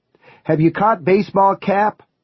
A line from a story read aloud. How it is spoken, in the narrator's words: one of the reporters would yell at the press conference